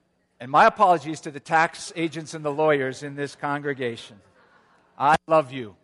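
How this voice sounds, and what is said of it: Usual voice. Nothing is said of it.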